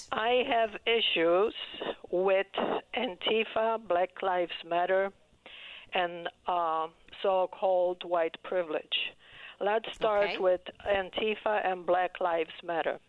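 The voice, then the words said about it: Polish-accented English. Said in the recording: “you probably understand from my accent that I'm white. I'm immigrant to this country ... are you Polish, Eastern European? ... Polish. Yes, you are hearing Polish.”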